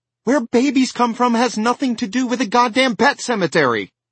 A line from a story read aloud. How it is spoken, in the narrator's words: Rachel cried at him